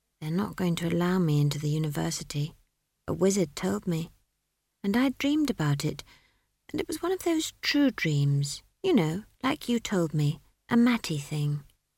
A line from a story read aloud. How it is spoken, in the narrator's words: Esk said in a low voice